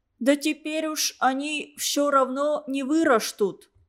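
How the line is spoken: Lisping young girl. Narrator (Russian): ответила восьмилетняя шепелявая Мотька

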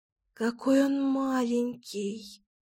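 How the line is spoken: Whispering. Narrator (Russian): зашептала Кира

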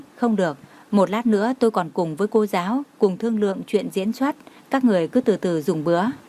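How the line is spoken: Smiling speech. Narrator (Vietnamese): Như Mạt mỉm cười nói

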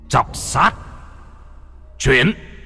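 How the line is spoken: Joyful shout. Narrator (Vietnamese): Lâm Phong trên mặt vui mừng, trong miệng quát

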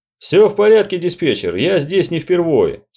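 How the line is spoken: Plain. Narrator (Russian): сказал Вулфовец

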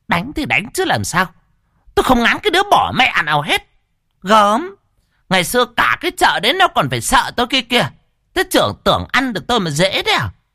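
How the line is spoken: Scoffing. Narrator (Vietnamese): Mụ Lan cười khẩy

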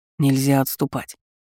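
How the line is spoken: Plain. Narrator (Russian): сказал мне

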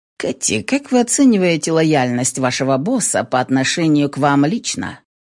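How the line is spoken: Plain. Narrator (Russian): спросил Шелдон

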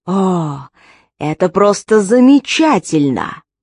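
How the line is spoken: Groaning. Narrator (Russian): Хоторн застонал

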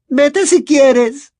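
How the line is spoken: Tearful, muffled exclamation. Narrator (Spanish): exclamó esta, que ahora lloraba con la servilleta en la cara

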